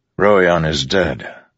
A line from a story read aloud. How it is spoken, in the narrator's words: Dalinar said wearily